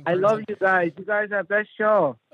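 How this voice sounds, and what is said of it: Put-on Asian accent. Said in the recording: “doing a racist impression of an Asian person.”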